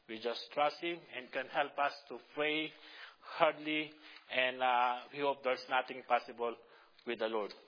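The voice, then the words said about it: Filipino-accented English. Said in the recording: “I have a Filipino accent. My English is not too really good, you know, because my accent”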